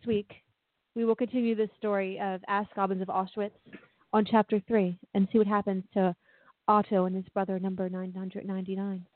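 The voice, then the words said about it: British accent. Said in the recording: “She likes the British accent.”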